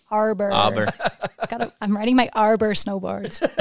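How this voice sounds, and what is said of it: Put-on American accent. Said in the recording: “I got to put my American accent ... The Kiwis drop the R.”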